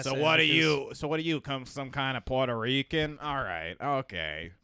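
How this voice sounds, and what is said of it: Imitates another person's voice. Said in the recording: “I'm just doing a Berg impression.”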